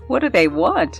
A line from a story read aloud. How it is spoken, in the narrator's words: She laughed and said